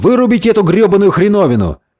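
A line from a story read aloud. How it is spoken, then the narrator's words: Shout. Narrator (Russian): Джордж Стеннер закричал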